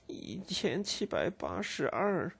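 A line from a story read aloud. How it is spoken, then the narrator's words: Murmuring. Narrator (Chinese): 加斯德尔喃喃地说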